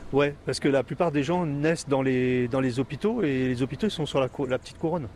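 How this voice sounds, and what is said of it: Parisian French accent. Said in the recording (French): “Vous n'avez pas l'accent créole quand vous parlez ... j'ai gardé mon accent parisien quand même”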